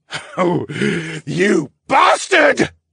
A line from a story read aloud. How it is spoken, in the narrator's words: the scientist screamed